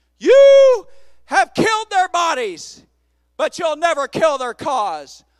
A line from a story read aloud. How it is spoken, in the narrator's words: a wise man stood in the crowd with his megaphone and shouted out